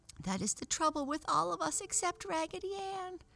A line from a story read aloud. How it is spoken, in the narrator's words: cried the little penny doll in a squeaky voice